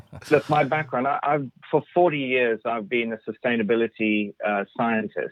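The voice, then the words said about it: Foreign accent. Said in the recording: “Apologies for the accent if it's not very clear”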